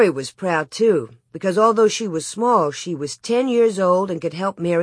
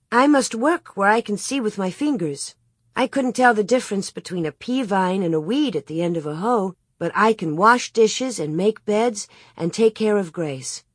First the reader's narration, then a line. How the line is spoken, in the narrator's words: Cheerfully she said